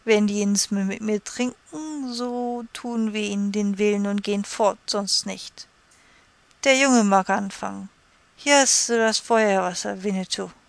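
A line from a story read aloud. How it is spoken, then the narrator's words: Slurred drunken speech. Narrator (German): sagte mit lallender Zunge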